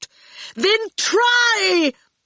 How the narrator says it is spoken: Torquil yelled at him

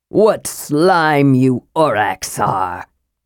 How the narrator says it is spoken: Gregg sneered

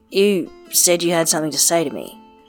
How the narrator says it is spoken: he says instead, stiffly

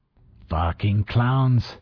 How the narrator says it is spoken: Ortega growled

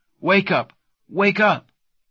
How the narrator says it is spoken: she cried

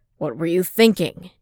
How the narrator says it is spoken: Jin shouted

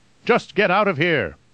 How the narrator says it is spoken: Peter shouted

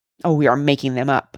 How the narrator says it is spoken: scoffed Cuffy

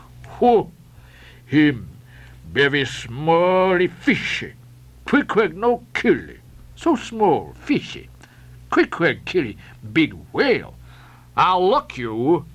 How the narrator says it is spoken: roared the captain

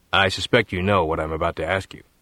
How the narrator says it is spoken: he said

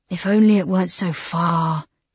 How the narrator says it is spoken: he sighed

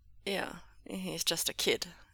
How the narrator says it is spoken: Ming Zhe muttered, echoing his brother

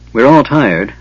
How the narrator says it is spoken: Tanis said wearily

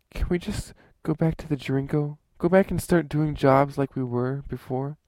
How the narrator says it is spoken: pleaded with him

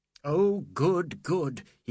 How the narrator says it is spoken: he cried, feeling that every earth was being stopped

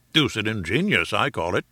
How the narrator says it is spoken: said our peer

